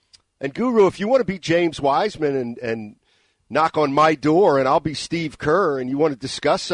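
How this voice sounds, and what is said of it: Usual voice. Nothing is said of it.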